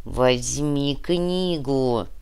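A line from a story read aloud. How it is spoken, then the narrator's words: Through gritted teeth. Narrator (Russian): процедил Нур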